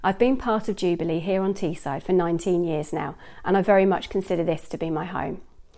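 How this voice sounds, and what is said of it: Non-local accent. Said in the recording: “you can probably tell from my accent that I'm not a local”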